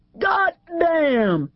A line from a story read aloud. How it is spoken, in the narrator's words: He roared